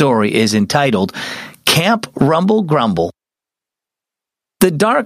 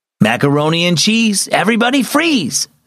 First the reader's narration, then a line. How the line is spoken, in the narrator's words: Sam, the camp counselor, called out over the rowdy summer campers